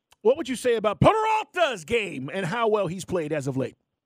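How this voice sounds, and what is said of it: Spanish accent. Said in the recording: “I like the Spanish accent.”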